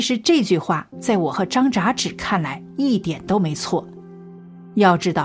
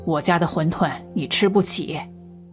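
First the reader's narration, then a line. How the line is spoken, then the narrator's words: Cold old man. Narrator (Chinese): 老头冷冷的说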